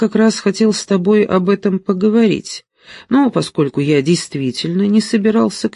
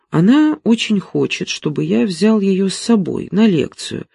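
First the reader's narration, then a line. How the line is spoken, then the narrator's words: Plain. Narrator (Russian): сказал Симон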